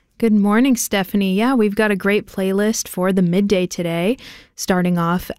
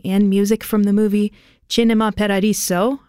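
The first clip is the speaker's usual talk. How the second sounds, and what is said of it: Put-on Italian accent. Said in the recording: “I'm practicing my Italian accent there.”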